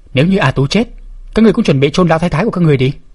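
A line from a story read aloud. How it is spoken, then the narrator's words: Angry shouting. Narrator (Vietnamese): Tiểu Tuyết Nhi trợn mắt la lên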